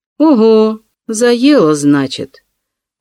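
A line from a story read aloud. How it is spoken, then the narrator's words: Meaningful drawl. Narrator (Russian): многозначительно протянула Зеленова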